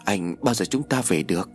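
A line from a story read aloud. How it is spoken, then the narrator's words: Trembling voice. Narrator (Vietnamese): Bách nói bằng giọng run rẩy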